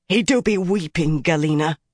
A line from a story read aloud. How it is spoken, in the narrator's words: said fiercely